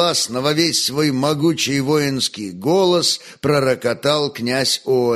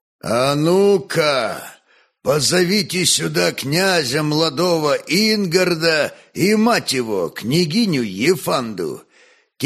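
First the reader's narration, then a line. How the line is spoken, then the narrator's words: Booming command. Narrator (Russian): тем же зычным голосом повелел Ольг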